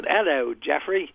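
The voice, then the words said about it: Bad put-on Australian accent. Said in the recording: “my terrible Australian accent, which sounds more like a Lucky Charms leprechaun than an Australian person”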